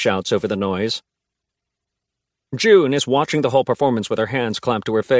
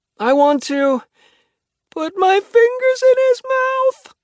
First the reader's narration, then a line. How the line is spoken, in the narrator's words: she moans, sounding horrified